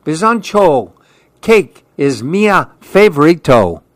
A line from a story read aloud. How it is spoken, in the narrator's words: Andy yelled